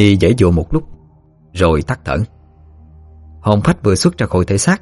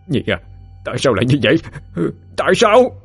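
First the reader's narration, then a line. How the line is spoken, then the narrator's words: Grief-stricken wailing. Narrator (Vietnamese): Phú Hoàng ôm lấy thân xác của Kim Nhi mà gào thét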